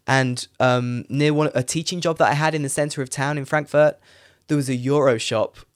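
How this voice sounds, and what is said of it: Crackly, late-night tired voice. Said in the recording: “Sorry for my voice... it's quite late for me. That's why my voice is crackling a bit”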